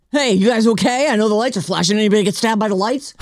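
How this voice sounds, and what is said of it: Imitates another person's voice. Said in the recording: “That's my Matt impersonation.”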